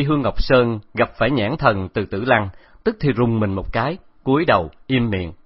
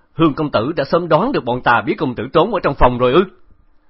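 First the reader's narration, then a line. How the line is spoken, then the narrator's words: Angry. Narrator (Vietnamese): Khẩu Trọng giận dữ nói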